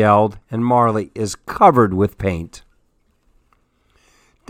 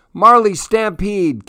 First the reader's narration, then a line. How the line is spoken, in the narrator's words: Cassie yelled